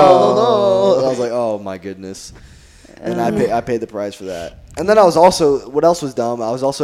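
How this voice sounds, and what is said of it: Usual voice. Nothing is said of it.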